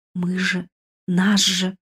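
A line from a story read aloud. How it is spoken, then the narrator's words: Frightened babbling. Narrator (Russian): пролепетала испуганно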